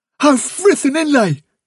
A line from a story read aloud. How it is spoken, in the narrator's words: cried Blackberry